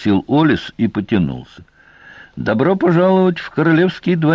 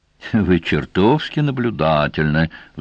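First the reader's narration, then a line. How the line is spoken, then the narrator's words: Sigh. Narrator (Russian): вздохнул Сварог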